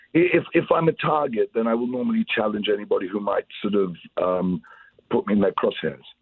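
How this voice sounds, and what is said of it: Plummy upper-class English accent. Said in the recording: “I speak with a silly, plummy English accent.”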